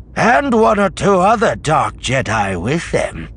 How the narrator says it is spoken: Sabaoth said grimly

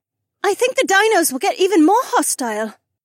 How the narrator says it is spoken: Becca called out

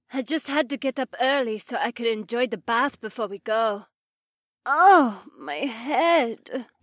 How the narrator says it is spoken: Becca groaned

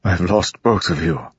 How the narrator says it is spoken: Lirin said hoarsely

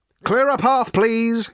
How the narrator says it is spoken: shouted Ford again

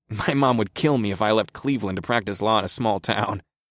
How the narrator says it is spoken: Jay chuckled

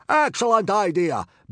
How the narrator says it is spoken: bellowed Gobber happily

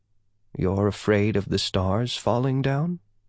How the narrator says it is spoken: Yah asked softly

